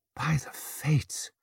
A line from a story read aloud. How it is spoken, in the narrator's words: breathed his mother, eyes wide at the sight